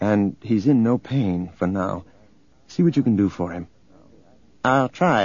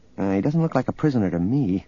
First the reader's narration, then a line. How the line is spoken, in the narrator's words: Leia muttered